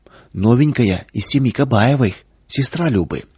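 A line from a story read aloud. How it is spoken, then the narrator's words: Whispering among the rows. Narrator (Russian): шепоток по рядам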